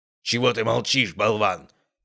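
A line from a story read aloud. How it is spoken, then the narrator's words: Angry growl. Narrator (Russian): прорычал Ярослав Андреевич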